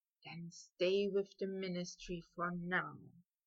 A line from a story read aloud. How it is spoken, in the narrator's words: Draco whispered to him